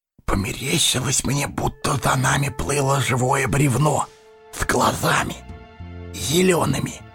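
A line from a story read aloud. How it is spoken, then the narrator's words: Whisper. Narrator (Russian): шепнул Сэмми засыпавшему Фродо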